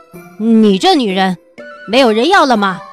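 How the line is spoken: Laughing loudly. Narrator (Chinese): 八俊在一旁哈哈大笑

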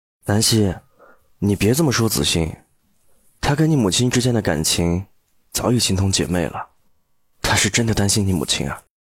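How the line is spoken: Resigned tone. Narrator (Chinese): 楚俊辰心底叹息，开口说道

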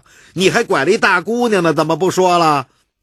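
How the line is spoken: Clamoring. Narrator (Chinese): 突然有个人叫嚷

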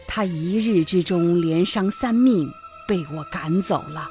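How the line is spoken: Sighing. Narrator (Chinese): 唐僧叹了一口气说

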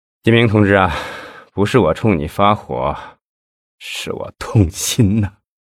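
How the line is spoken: Sighing. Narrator (Chinese): 赵东林叹息了一声，说

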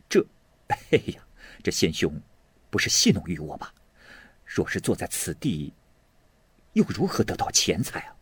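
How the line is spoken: Inner amused musing. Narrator (Chinese): 心里就暗笑说道

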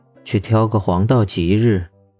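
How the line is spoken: Flat, indifferent. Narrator (Chinese): 他才淡淡的说道

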